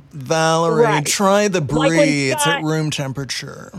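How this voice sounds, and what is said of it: Fake Southern rich-person accent. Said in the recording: “the best fake accent that I'm aware of ... playing a rich person ... fake Southern accent”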